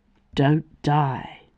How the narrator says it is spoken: he murmured

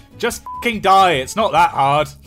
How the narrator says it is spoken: Simon shouted at Dan

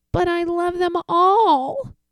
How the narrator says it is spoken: Spencer cried

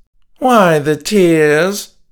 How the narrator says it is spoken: he asked, mocking

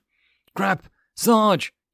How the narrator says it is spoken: he yelled at the marine sergeant

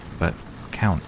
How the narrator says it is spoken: I said

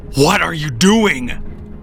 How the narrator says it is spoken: yelled at him

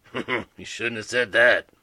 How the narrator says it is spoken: Moody mumbled

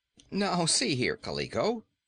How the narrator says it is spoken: said Rinky-Dink

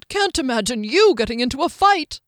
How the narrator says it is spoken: Skimnoddle snorted

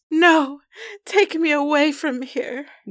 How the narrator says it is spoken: Nora pleaded, her voice trembling

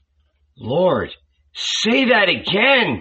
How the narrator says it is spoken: I cried

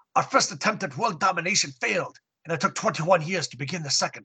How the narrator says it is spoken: she exclaimed

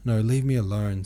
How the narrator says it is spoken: said Princess Mary

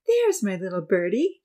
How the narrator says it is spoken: Georgie said, smiling

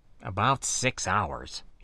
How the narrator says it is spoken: replied grimly, though with that devilish smile

